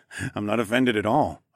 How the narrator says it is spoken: I chuckled

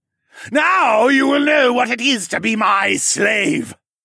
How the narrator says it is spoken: Hess screamed in triumph

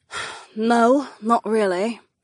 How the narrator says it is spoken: Sienna sighed

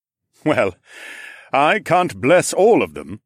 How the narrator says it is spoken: Aaron chuckled

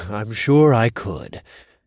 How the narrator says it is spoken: I chuckled

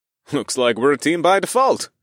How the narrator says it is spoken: I chuckled to the pixie

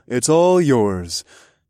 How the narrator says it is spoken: chuckled

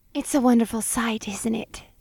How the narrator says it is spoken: Cupy purred

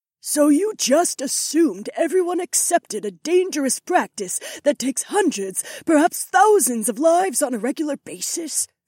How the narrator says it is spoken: Issy sneered

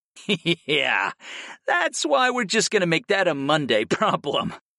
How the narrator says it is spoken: laughed, and the rest of my lovers joined in

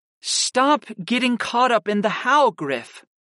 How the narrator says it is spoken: Kristen said with an impatient sigh

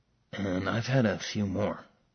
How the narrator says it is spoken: Max whispered loudly

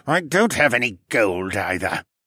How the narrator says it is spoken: the sorcerer grumbled

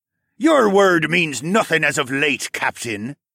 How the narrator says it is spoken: the yellow-striped man spat

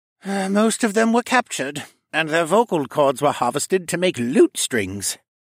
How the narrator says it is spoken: he said with a disgruntled sigh

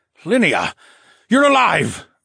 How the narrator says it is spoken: Phineas gasped

